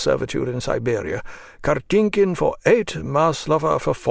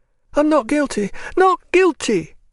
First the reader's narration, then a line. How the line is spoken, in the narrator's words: she suddenly cried, so that it resounded through the room